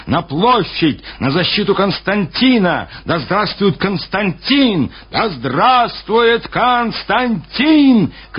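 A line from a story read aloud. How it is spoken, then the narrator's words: Soldiers shouting. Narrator (Russian): кричали солдаты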